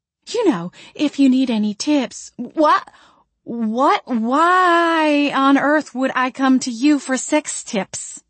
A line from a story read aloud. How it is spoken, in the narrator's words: I spluttered